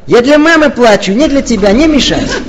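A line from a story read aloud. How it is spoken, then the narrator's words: Angry girl. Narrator (Russian): эта девочка злобно отреагировала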